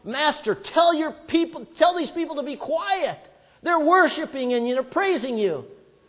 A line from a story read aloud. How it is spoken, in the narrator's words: one of the Pharisees yelled out